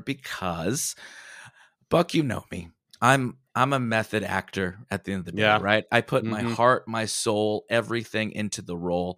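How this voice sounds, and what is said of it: Put-on sexy, altered voice. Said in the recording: “Are you doing a new sexy voice? ... I am. ... My voice sounds a little different ... I wanted my voice to really mirror the timbre of that kind of music.”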